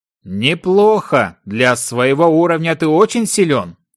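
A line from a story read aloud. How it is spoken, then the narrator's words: Delighted, laughing. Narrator (Russian): Внезапно захлопал в ладоши лорд, а затем даже рассмеялся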